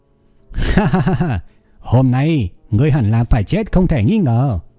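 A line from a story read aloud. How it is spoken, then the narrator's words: Loud laughing speech. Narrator (Vietnamese): cười lớn nói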